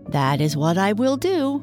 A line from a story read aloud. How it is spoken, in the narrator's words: exclaimed the white pig